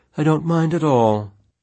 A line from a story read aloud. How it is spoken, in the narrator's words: Abigail the sloth said calmly